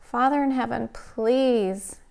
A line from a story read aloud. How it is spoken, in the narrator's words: pleaded